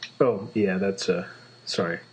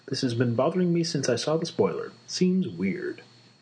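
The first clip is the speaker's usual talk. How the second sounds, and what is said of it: Smooth radio announcer voice. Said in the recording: “how smooth he suddenly sounded ... I transitioned into radio voice there for a minute”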